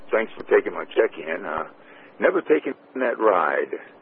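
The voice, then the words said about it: A little hoarse voice. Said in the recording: “my voice is a little hoarse right now”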